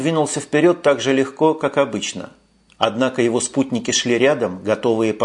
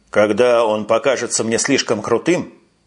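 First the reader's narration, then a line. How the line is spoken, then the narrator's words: Dry. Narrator (Russian): сказал он сухо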